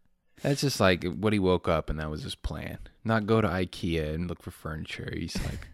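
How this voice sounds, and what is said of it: Usual voice. Nothing is said of it.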